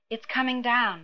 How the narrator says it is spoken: the princess breathed

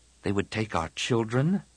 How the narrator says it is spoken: Tian murmured

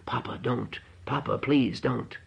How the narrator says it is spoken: he was blubbering, too, whispering

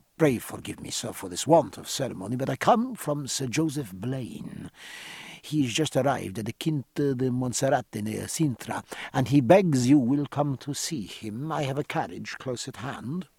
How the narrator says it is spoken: went on in a low, urgent tone

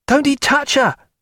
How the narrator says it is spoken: cried Pullings again

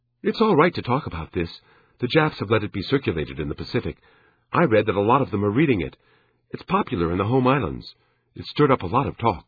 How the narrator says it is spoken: Anxiously, she said

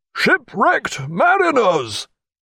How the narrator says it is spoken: He called out

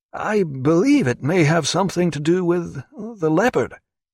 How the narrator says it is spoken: said Evans hesitantly

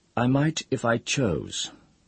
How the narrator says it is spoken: he said in a calm voice

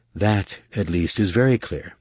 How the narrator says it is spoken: sighed

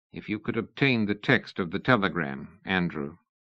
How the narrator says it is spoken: he said at last, very quietly

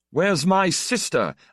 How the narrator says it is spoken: yelled

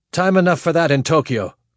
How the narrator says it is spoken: Korolev snapped

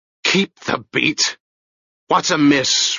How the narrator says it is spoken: roared the hoarse, whistling voice from the prow

